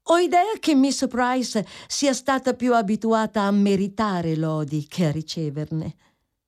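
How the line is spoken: Quick, jovial tone. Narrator (Italian): Miss Crawford ebbe solo il tempo di dire, in tono gioviale

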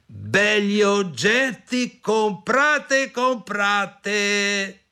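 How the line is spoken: Shouting. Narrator (Italian): gridò

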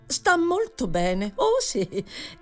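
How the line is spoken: Exclamation. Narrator (Italian): esclamò Mrs

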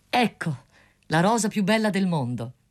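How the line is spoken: Proud exclamation. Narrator (Italian): esclamò lo studente

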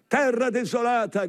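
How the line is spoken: Shouting. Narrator (Italian): grida Erasmo da Rotterdam

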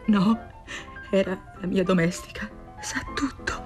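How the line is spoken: Anguished murmur. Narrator (Italian): pietrificata dall'angoscia, mormorò

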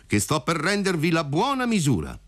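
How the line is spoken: Shouting. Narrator (Italian): gli gridò compar Alfio

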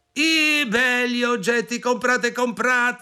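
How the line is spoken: Shouting. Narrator (Italian): gridò

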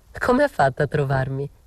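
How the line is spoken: Laughing. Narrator (Italian): dissi ridendo

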